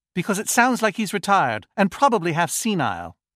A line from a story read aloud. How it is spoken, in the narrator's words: Carly snapped